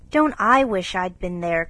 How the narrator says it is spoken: cried Joe

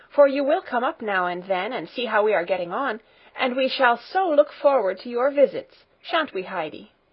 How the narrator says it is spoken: Clara called out

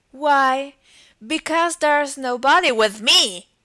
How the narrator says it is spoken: cried Humpty Dumpty

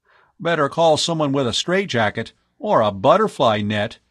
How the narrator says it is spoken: he said, quaking with laughter

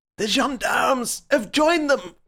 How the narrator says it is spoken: cried the professor

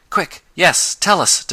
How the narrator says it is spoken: demanded Tom eagerly

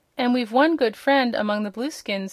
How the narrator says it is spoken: said Button Bright

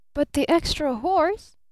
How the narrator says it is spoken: cried Barton

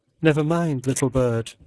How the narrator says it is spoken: said old Ursula, the nurse, soothingly

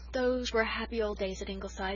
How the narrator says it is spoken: said Susan with a sigh

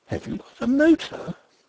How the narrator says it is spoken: The astonishment in her tone as she exclaimed

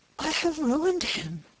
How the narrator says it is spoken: cried Frances, in terror

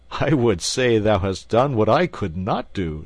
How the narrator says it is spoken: said the king, laughing

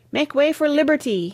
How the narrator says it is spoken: he cried

